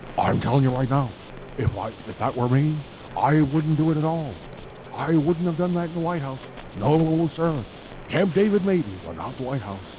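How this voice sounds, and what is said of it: Imitates another person's voice. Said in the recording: “my Nixon impression.”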